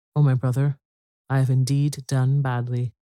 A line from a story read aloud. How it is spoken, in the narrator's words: The happy hunter timidly, for he feared his brother's anger, and said